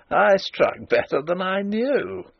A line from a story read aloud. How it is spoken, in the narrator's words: he laughed triumphantly